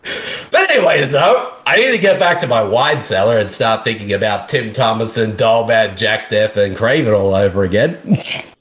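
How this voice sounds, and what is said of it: Slight Australian accent. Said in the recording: “starting to develop a little bit of an Australian accent”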